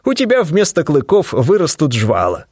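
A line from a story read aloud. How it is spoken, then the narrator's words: Chuckling. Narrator (Russian): хохотнул я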